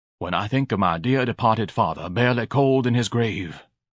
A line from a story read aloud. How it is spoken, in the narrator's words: Ignatius murmured, pretending to wipe some moisture from his eyes